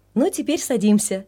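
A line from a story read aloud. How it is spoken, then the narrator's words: Cheerful and casual. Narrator (Russian): весело обратился Григорий Андреевичу папа, как ни в чем не бывало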